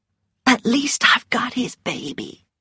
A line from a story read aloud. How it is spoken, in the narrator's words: whispered Melanie